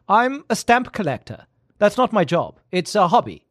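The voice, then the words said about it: Put-on vague foreign accent. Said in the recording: “he's got some kind of an accent ... I've got to try to think of a non-offensive accent ... with the trace of some kind of accent”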